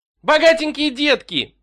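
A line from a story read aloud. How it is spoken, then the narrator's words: Shrieking. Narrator (Russian): взвизгнул Баунти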